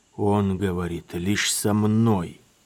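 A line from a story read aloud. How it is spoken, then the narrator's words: Young man creaking through teeth. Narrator (Russian): проскрипел сквозь зубы юноша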